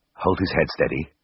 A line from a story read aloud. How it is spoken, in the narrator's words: said hoarsely